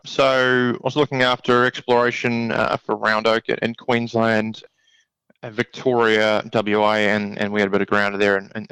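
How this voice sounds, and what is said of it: New Zealand speaker, Australian-sounding accent. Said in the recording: “You've got a good Australian accent there, I think, in the end... I can't hear too many of the New Zealand accent”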